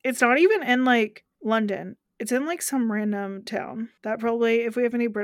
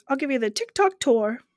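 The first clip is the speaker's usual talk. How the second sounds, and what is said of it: Poor put-on British accent. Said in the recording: “in a real British accent, not my terrible version of a British accent.”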